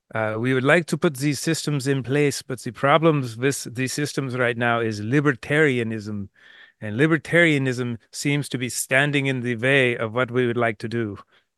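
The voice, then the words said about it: Put-on German American accent. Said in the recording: “I'll do my best uh, German American accent”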